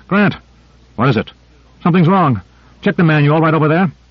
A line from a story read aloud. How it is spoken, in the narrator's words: called out